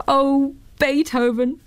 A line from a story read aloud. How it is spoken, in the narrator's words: cried Miss Marjorie in her speaking to little bird's voice